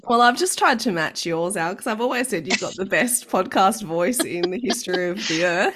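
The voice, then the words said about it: Husky, low sick voice. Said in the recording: “sexy voice you've got going on there ... My voice is only like that when I'm hit with this terrible flu ... razor blades in your throat ... the funky voice”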